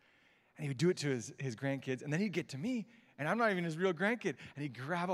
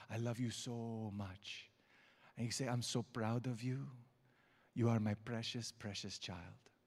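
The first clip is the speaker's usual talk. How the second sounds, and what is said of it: Imitated Egyptian accent. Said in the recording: “his Egyptian accent”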